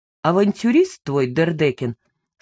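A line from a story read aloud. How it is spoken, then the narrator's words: Plain, after pause. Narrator (Russian): сказал он наконец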